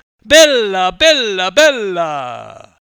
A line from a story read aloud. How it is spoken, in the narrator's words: shouted in his father's native tongue